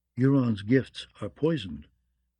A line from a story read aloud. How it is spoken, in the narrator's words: another voice whispered